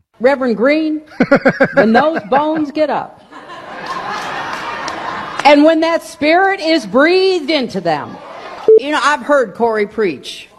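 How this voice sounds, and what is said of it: Hillary Clinton's put-on Southern accent. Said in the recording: “The fake accent. Great moments in fake accent history ... she went to, surprise, surprise, a Southern black church, and all of a sudden, Arkansas Hillary came back out”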